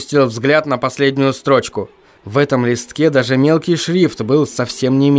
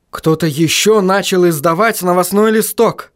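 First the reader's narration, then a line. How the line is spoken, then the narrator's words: Excited exclamation. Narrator (Russian): воскликнул Вильям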